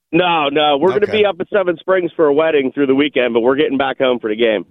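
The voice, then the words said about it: Rough, worn-out voice. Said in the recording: “I have not recovered from last week. You can still hear it in my voice. I sound like dog water.”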